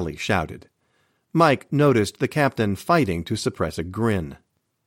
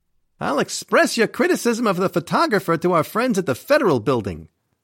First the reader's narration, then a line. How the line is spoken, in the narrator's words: Sully snapped